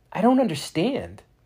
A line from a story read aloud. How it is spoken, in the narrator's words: Max exclaimed